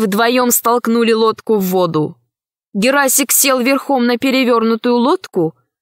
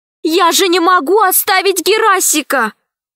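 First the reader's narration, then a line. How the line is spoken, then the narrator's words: Exclaimed. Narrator (Russian): воскликнула Алиса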